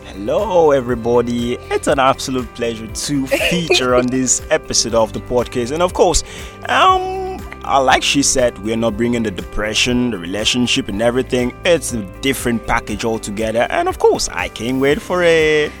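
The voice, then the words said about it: Polished radio announcer voice. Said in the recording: “forming radio voice”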